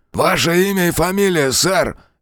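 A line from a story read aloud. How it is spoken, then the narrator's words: Barked, policeman. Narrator (Russian): рявкнул второй полицейский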